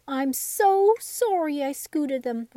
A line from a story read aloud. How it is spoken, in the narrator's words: Raggedy Andy cried